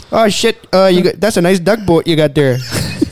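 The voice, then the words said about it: Put-on Canadian accent. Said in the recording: “Canadian guys here, wow. well, they, they all sound like this, eh? ... that accent is pretty natural”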